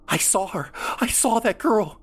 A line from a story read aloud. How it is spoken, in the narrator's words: exclaimed